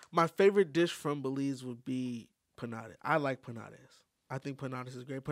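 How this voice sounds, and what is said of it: Spanish-accented pronunciation. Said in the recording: “that's with the Spanish accent right there”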